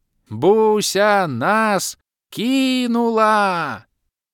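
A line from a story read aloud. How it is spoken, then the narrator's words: Elf screaming. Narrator (Russian): Продолжал вопить лысый эльф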